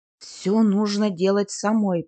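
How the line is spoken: Grumbling. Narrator (Russian): проворчала Эмма

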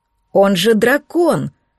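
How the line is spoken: Exclaimed. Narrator (Russian): воскликнула мой куратор

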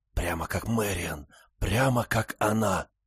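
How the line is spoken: Loud whisper. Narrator (Russian): Большая Барбара Маккрей громко прошептала

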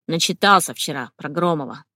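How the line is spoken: Irritated grumble. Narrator (Russian): с раздражением проворчал он

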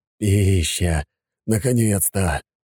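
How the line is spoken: Moaning. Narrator (Russian): простонал тот

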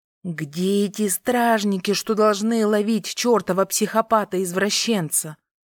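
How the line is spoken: Hissing. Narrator (Russian): Продолжила шипеть я

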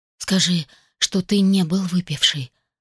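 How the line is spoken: Whispering. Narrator (Russian): прошептала я

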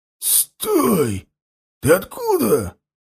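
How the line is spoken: Hoarse voice. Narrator (Russian): раздался сиплый голос

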